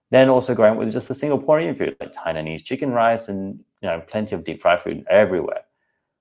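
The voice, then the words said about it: Australian accent. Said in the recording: “born in Australia, as you can tell from the accent”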